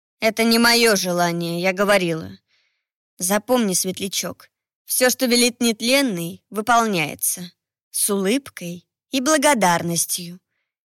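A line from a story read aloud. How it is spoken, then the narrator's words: Soft. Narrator (Russian): мягко произнесла Кио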